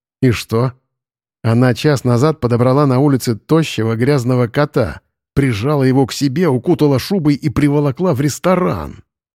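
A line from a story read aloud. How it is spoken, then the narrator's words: Angry hiss. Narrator (Russian): злобно прошипел Вадим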